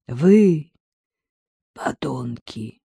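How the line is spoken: Strained whisper. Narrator (Russian): с трудом прошептал он

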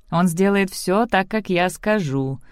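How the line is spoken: Grim assurance. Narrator (Russian): мрачно заверил ее Зорро

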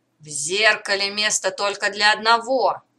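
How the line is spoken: Criminal's roar. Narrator (Russian): взревел преступник

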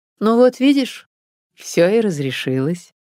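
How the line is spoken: Calm, in silence. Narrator (Russian): В наступившей тишине Эдик спокойно сказал

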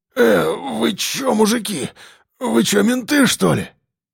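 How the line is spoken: Frightened. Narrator (Russian): испуганно проговорил он

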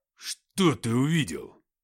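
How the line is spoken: Menacing question. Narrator (Russian): грозно спросил Уфимцев

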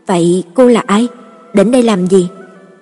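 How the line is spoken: Frightened trembling woman. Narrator (Vietnamese): Thất vọng trong mắt nhất thời biến thành sợ hãi, bà run run hỏi

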